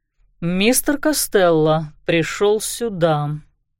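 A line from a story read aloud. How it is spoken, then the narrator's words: Slow. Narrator (Russian): медленно начал он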